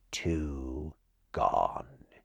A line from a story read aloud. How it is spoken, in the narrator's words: he said, his voice lowering strangely